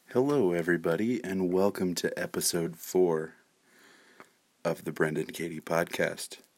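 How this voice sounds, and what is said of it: Quiet, lowered voice. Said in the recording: “my voice is a little lower than normal ... keep my voice down”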